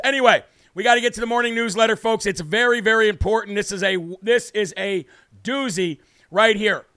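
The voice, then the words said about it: Worn-out, strained voice. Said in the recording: “Sorry for my singing voice. Like I said, folks, my voice is absolutely shot. Yelling, screaming”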